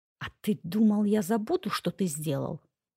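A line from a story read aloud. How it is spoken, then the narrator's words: Growled reply. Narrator (Russian): прорычала в ответ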